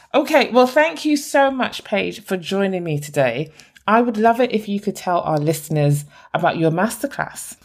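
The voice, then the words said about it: Lovely non-American accent. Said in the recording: “She's a lovely accent. I love that. I love listening to you. ... Americans love my accent. ... It's beautiful. It is beautiful.”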